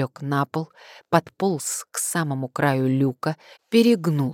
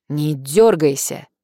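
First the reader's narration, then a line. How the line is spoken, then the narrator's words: Barked. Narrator (Russian): рявкнул Карпов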